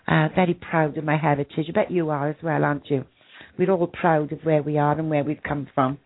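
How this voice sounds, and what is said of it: Broad Welsh accent. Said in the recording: “it's a broad Welsh accent”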